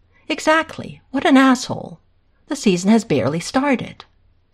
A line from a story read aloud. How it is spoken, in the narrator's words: Hayden exclaims again, exasperated